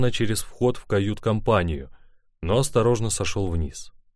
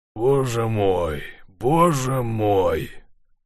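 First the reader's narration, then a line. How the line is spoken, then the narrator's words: Despairing groan. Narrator (Russian): простонал он, в безграничном отчаянии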